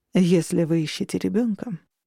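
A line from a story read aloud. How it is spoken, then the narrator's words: Even, level voice. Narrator (Russian): произнес ровным голосом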